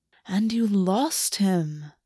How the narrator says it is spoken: August purred

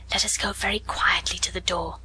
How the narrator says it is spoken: she whispered

